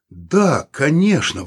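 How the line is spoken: Exclamation. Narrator (Russian): воскликнул он

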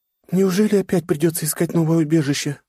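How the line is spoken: Sad sigh. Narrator (Russian): грустно выдохнула девушка

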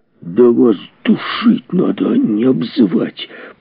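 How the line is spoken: Angry hiss. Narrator (Russian): прошипел Кенси

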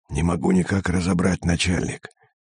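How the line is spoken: Hissing whisper. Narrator (Russian): свистящим шепотом ответил Пермяк

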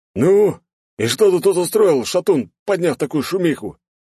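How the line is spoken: Gruff bark. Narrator (Russian): гаркнул седой мужчина по прозвищу Комбат

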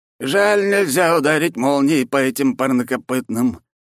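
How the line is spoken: Sigh. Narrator (Russian): вздохнул Флавий

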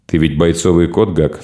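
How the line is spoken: Plain. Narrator (Russian): сказал он

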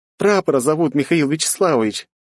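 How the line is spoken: After laughing, sharing. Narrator (Russian): насмеявшись Доль, поделилась она со мной

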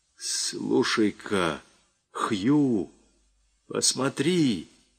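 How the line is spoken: Sudden frightened whisper. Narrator (Russian): испуганным шепотом произнес вдруг Костлявый

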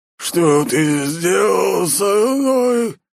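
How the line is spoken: Deafening growl. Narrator (Russian): Зарычал так, что в ушах заложило

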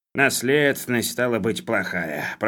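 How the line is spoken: Grumbling. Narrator (Russian): проворчал Хлебоводов

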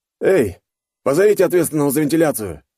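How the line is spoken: Barking shout. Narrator (Russian): рявкнул он

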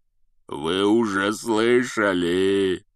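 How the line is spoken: Growling. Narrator (Russian): прорычал Хагрид

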